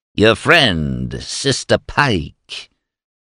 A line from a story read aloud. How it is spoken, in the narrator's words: Eris cackled